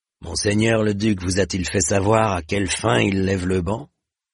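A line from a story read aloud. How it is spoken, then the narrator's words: Plain question. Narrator (French): demanda-t-il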